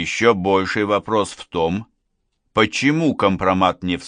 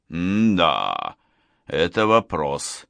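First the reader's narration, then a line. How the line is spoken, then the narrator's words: Thoughtful. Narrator (Russian): задумчиво проговорил Гуров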